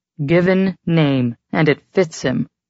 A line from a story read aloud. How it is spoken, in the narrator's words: Chet grunted